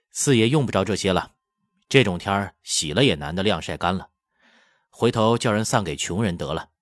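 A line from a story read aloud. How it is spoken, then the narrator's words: Laughing. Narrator (Chinese): 铁头蛟 笑道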